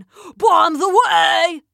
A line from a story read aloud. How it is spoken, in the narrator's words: bellowed Gorp